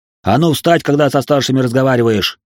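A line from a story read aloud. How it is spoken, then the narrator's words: Barked shout. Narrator (Russian): гаркнул он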